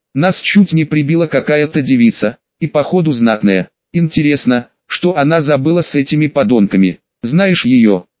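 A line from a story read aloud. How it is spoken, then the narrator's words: Plain. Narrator (Russian): спросил Кинджи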